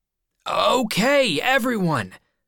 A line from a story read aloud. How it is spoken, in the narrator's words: shouted